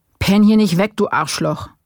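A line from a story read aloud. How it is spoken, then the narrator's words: Bellowing. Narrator (German): brüllte lang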